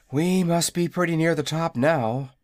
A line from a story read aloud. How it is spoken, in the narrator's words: said the boy, wearily